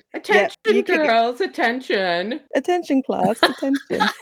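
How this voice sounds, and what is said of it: Horrible put-on English accent. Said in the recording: “practicing my horrible English accent”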